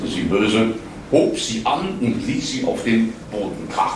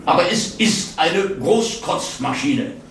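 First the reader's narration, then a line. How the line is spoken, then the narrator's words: Angry. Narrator (German): sagte sie wütend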